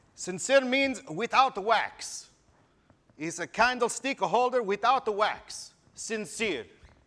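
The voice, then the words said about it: Put-on Italian accent. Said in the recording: “I'm going to speak with the best Italian accent I can right now, because my grandfather was Italian.”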